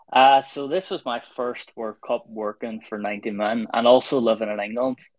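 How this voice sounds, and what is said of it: Irish accent. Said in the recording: “being Irish ... can you not tell by the accent?”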